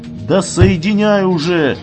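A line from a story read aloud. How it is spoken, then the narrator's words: Roar. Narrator (Russian): взревел начальник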